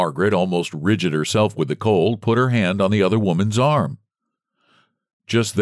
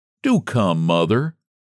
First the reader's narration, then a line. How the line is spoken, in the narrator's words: Sam begged